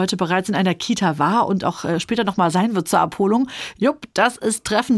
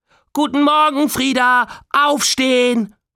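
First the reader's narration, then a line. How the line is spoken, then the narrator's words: Extra loud call. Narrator (German): ruft sie extra laut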